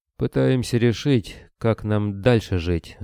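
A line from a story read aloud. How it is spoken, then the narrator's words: Sighing. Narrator (Russian): вздохнул борода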